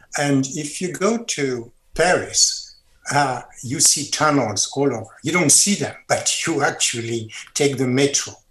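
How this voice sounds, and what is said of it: French accent. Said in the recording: “you can tell by my accent, I'm French”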